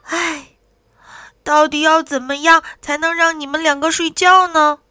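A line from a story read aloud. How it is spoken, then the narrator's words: Dazed sigh. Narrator (Chinese): 呆了，叹了一口气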